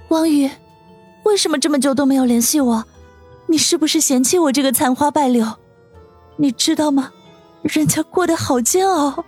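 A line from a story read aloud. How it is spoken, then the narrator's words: Trembling voice. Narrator (Chinese): 舒心声音发颤地说道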